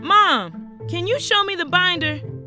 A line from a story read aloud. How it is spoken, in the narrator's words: I shouted into the other room